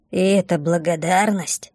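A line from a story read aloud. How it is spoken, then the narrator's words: Quiet grumble. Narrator (Russian): тихо проворчала Бумба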